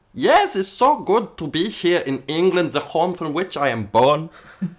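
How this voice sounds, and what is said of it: Odd put-on accent. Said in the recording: “hence my odd accent.”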